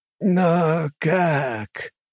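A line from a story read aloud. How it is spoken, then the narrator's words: Hoarse croak. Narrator (Russian): прохрипел Есихота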